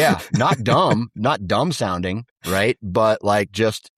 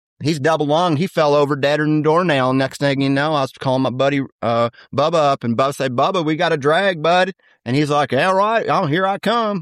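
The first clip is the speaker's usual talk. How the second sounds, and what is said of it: Southern hunter accent impression. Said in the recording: “my impersonation of a Southern bow hunter ... that's what it sounds like. That's what a Southern deer hunter”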